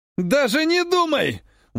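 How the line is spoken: Shouted. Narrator (Russian): выкрикнул оппонент

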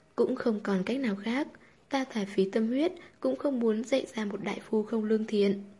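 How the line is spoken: Sighing. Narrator (Vietnamese): Tư Nhược Lan thở dài

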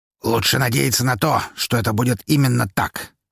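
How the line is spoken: Harsh tone. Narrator (Russian): жестким тоном проговорил Лазарев

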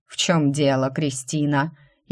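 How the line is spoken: Mocking inquiry. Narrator (Russian): издевательским тоном осведомился Драйден

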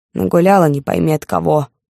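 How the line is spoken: Grumbling. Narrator (Russian): бурчала она

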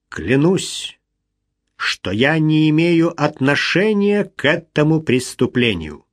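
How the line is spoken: Slow proud speech. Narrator (Russian): медленно произнес

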